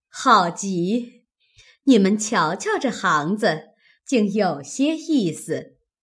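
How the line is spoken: Laughing. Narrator (Chinese): 李氏笑道

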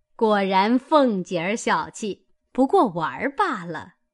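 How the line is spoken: Laughing. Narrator (Chinese): 薛姨妈笑道

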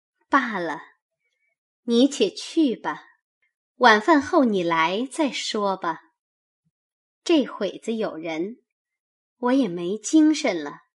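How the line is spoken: Said with a smile. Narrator (Chinese): 那凤姐出了半日神，方笑道

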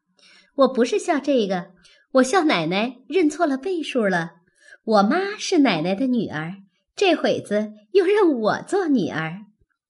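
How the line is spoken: Laughing. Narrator (Chinese): 小红笑道

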